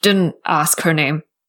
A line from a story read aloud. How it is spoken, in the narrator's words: Liu Qingge grunted as he parried one of her blows